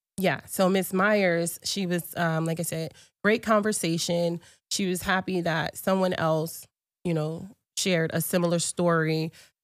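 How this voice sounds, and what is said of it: Congested, off-sounding voice. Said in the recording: “My voice is very much off today. I'm sure you can hear that, and I'm a little bit congested.”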